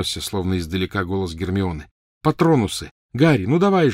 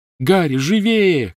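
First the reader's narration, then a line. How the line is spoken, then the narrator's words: Shouted. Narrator (Russian): крикнула Гермиона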